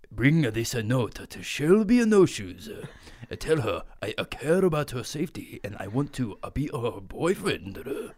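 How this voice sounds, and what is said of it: Samurai character impression. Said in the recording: “that fucking impression you do of the samurai ... That was a good impression”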